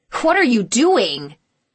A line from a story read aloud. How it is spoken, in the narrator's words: he shouted